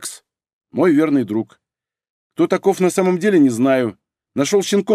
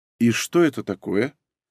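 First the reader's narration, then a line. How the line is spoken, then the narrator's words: Calm question. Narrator (Russian): спокойно поинтересовалась Юлия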